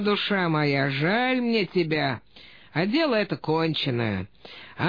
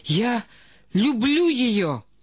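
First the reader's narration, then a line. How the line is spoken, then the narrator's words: Desperate exclamation. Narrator (Russian): воскликнул с отчаянием Леонин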